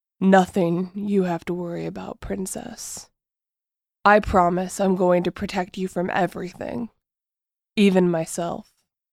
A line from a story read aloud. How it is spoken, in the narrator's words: his voice is husky as he vows